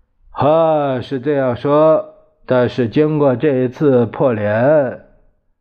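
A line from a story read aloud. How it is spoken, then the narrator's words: Sighing. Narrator (Chinese): 蒋介石 叹了一口气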